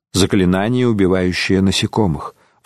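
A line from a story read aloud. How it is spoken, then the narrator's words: Sighing. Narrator (Russian): вздохнул он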